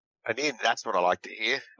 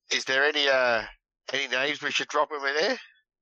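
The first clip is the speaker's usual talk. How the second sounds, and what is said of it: Captain America-style accent. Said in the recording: “his best Captain America accent.”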